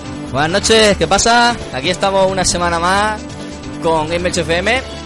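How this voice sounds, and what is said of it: Put-on Andalusian Spanish accent. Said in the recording (Spanish): “vengo yo con acento andaluz”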